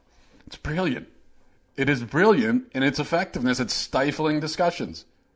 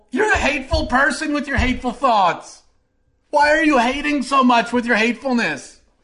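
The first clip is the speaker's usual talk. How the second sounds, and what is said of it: Mocking imitation of a debater. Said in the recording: “my impression of like 50% of the country in a debate”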